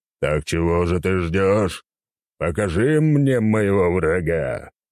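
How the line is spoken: Furious deity's roar. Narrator (Russian): взревело разъяренное божество

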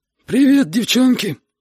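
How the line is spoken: Hoarse wheeze. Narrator (Russian): просипел Витя

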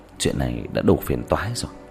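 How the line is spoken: Pensive muttering. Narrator (Vietnamese): Diệp Thiếu Dương nhíu mày trầm ngâm lẩm bẩm

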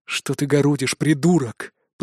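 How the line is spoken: Muttered through teeth, drowned out. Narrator (Russian): процедил Итан, в поднявшемся шуме его никто не услышал

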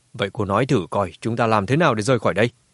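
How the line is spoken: Cold question. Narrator (Vietnamese): Lão Cửu cau mày lạnh lùng hỏi

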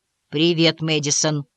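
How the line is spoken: Uncertain. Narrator (Russian): неуверенно проговорил

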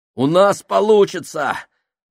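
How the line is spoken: Exclaiming. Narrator (Russian): воскликнул Фабрини

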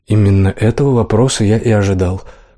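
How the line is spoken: Mumbling. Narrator (Russian): промямлил

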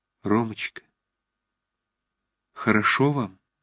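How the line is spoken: Quiet trembling voice. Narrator (Russian): Вдруг она спросила тихим, вздрагивающим голосом

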